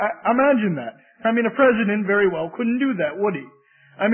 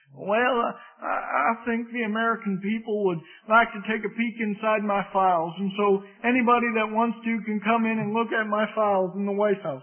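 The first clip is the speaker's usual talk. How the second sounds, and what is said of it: Poor Arkansas accent imitation. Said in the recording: “I know that's a poor Arkansas accent”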